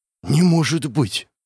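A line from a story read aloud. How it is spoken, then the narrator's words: Breathless exclamation. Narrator (Russian): выдохнул я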